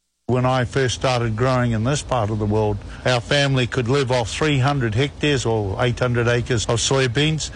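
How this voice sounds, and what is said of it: New Zealand accent. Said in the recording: “came there from New Zealand more than 30 years ago. And as you'll hear, he still has his down under accent.”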